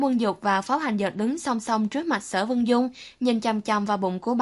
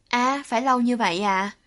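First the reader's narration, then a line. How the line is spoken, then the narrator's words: Dejected, disappointed sighing. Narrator (Vietnamese): Thẩm Quân Dục ủ rũ, mặt anh thất vọng tràn trề, thở dài thường thường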